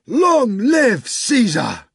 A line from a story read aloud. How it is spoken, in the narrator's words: the soldiers in the cohorts cried out fearsomely